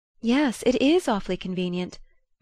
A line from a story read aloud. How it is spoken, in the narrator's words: May brightly agreed